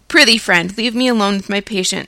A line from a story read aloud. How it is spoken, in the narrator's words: said the practitioner